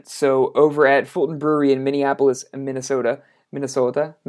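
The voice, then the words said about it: Exaggerated Minnesota accent. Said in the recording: “my best impression of somebody from Minnesota. It's my Fargo.”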